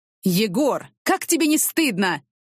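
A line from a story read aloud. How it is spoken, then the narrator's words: Angry yelling. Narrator (Russian): орал он, не стесняясь в выражениях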